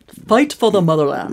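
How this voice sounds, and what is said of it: Failed Russian accent, Tim Curry-like. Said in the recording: “Couldn't find my Russian accent. ... It sounds like my tonsils just swelled up real bad. ... You just went straight Tim Curry.”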